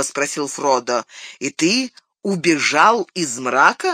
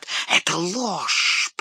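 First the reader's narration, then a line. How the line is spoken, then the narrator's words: Spiteful hiss. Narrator (Russian): прошипел Горлум, злобно сверкнув глазами при имени Арагорна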